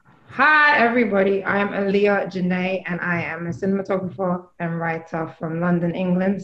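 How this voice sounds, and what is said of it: British accent. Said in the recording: “the accent is British”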